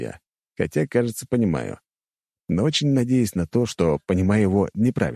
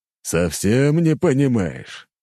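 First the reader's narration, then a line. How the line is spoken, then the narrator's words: Nasty, snide, smiling. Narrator (Russian): как-то особенно противно и ехидно заулыбался император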